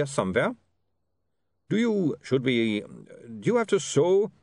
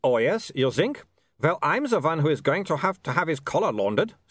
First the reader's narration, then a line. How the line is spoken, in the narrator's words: snapped Otto